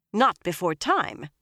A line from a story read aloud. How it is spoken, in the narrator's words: Elida snapped